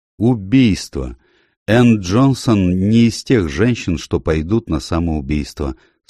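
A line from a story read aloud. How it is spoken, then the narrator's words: Calm and firm. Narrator (Russian): спокойно и решительно сказал доктор Лейднер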